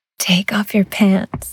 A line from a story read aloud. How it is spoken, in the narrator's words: she breathed